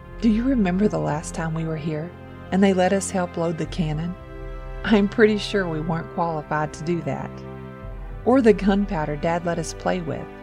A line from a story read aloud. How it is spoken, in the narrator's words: Chuckling, Jake said